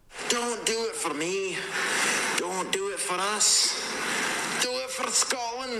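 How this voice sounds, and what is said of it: Fairly good put-on Scottish accent. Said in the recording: “doing a Scottish accent ... It's not bad ... That is not bad”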